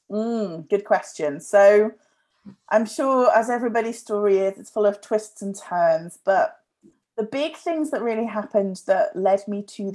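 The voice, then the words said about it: Speaks with a distinct accent. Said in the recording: “your wonderful accent”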